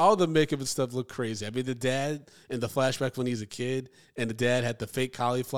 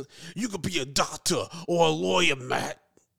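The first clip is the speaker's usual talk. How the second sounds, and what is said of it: Exaggerated New York accent. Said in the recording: “that terrible New York accent.”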